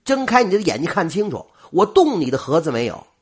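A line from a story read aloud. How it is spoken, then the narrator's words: Angry. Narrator (Chinese): 郭小眼怒着说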